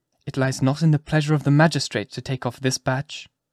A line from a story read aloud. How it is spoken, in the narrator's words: calmly replied Chester